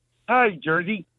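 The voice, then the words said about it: Kermit the Frog character voice. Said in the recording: “the most common impersonation that people do is Kermit the Frog”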